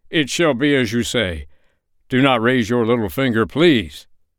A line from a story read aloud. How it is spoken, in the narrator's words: he cried